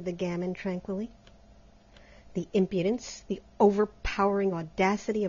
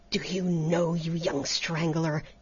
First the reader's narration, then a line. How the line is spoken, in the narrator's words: he gasped